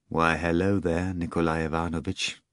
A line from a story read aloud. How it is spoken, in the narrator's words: Margarita spoke in a sad voice